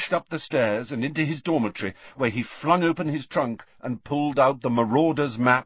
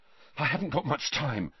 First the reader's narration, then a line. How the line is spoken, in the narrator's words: Harry panted